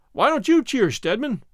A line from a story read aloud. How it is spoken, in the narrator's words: he shouted